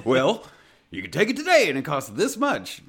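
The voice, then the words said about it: Put-on Texas salesman accent. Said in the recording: “doing somebody else's voice ... it sounded like a snake oil salesman ... the Texas accent's coming out”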